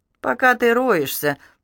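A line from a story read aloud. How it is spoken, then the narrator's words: Forced cheerfulness. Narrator (Russian): нарочито бодро произнесла она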